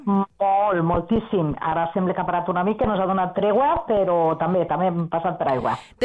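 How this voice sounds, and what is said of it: Valencian Catalan accent. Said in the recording (Catalan): “ens encanta aquest accent. Estàs a València, oi?”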